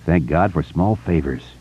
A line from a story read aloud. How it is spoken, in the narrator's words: Richie muttered